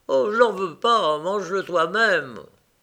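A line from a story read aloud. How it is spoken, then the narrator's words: Emotional exclamation. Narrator (French): il s'écria avec émotion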